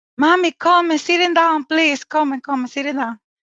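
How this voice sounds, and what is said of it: Thick Spanish accent. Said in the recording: “in her thick Spanish accent”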